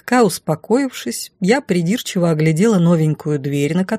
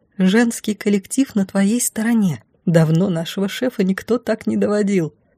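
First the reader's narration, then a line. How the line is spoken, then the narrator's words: Barely audible whisper. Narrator (Russian): одна едва слышно прошептала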